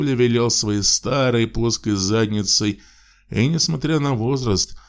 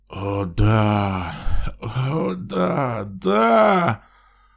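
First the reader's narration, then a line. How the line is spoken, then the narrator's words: Hoarse moan. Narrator (Russian): Вырвался у него из горла хриплый стон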